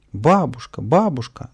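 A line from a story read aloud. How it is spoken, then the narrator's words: Joyful cry while running. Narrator (Russian): на бегу радостно вскрикнул Павлик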